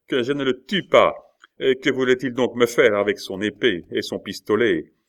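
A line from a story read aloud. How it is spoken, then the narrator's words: Shouting with laughter. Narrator (French): cria Coconas en éclatant de rire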